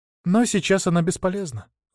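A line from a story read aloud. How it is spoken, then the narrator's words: Sighing. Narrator (Russian): вздохнула она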